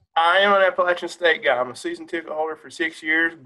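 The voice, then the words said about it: Southern West Virginia accent. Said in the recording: “I'm a son of Southern West Virginia. You can hear my accent.”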